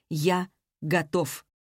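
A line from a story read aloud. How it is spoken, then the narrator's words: Plain. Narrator (Russian): ответил Борн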